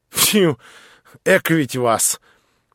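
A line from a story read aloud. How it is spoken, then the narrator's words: Whistle and guffaw. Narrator (Russian): Черноволосый присвистнул и захохотал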